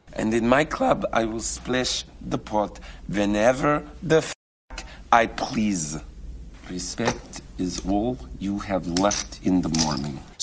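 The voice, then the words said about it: Exaggerated put-on Russian accent. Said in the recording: “Russian accent... So Russian-speaking English will sometimes stick a little y sound in... what Malkovich does here is something that no Russian speaker speaking English would actually do, which is palatalize”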